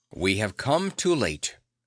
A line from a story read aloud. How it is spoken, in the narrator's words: he said sternly